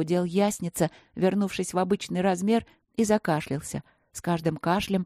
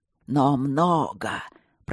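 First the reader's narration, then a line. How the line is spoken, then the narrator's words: Hoarse wheeze. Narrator (Russian): прохрипел он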